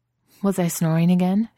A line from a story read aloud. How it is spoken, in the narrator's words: her voice trembles